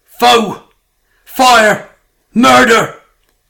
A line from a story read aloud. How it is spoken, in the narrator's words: shouted raucously at the top of his lungs